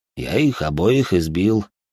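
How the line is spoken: Calm reply. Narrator (Russian): спокойно ответил Боря

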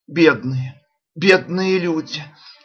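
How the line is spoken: Moaning. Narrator (Russian): простонала, наконец, миссис Челленджер

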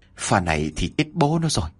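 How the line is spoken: Muttering while running. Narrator (Vietnamese): ông Vũ vừa lẩm bẩm

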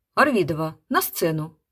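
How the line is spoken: Booming bark. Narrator (Russian): зычно рявкнул

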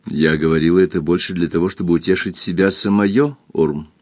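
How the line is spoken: Calm. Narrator (Russian): спокойно сказала Кристин

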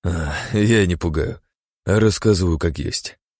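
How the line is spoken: Chuckling. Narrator (Russian): хохотнул Кэл

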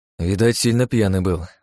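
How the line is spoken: Sigh. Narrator (Russian): вздохнул я

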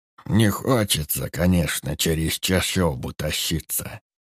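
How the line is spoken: Uneasy mutter, old man. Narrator (Russian): пробормотал старик, беспокойно оглядываясь, словно лесные духи могли подслушать уже здесь

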